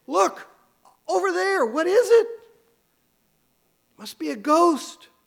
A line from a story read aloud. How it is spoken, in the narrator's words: one of the men cries out with a shriek that pierces even above the wind